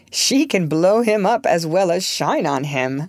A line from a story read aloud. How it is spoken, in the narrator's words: laughed